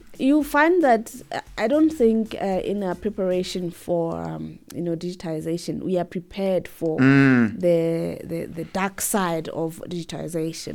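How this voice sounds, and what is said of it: Weak, fading voice. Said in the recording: “you can hear that my voice is just depleting... As we talk, I've been struggling.”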